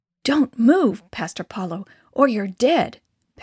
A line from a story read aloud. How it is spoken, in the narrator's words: Pastor Placido whispered excitedly